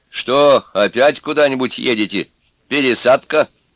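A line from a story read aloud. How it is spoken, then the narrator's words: Condescending laugh. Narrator (Russian): Брюхатый снисходительно посмеялся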